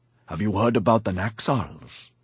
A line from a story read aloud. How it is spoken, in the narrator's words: he whispered